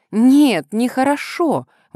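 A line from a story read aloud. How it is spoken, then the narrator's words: Exclamation. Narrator (Russian): воскликнула Селина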